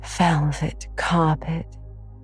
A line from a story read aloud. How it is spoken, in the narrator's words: sighed Anne luxuriously